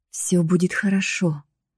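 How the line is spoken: Soothing whisper in ear. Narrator (Russian): прошептал на ухо, успокаивая

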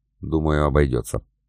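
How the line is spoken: Quiet. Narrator (Russian): Иван негромко сказал

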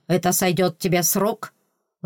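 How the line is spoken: Angry question. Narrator (Russian): злобно вопросил Форенс

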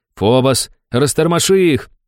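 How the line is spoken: Shouting. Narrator (Russian): прокричал я другу

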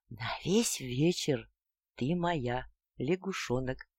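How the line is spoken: Hot passionate whisper. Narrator (Russian): горячо поцеловал и жарким шепотом произнес

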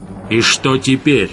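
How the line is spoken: Barked snap. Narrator (Russian): рявкнул Гессер

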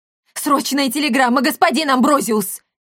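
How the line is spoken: Shouted. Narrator (Russian): крикнул бородавка

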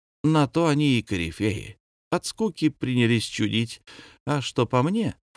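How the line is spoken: Cheerful singsong. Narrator (Russian): Фокусов-Веселовский весело напел

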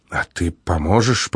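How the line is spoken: Young woman whispering. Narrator (Russian): прошептала девица

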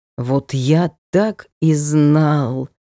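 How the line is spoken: Martyred groan. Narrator (Russian): С мученическим видом простонал кормчий дикой охоты

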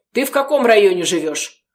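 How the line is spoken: Stern question. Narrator (Russian): строго спросил он у Марианны

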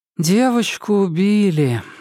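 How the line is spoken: Sighing. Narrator (Russian): вздохнула Нарцисс

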